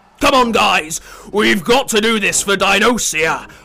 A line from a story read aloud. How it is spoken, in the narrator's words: roared Timmy the T-Rex